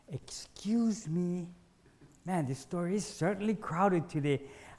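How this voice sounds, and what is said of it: Exaggeratedly polite voice. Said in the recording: “in my most polite voice,”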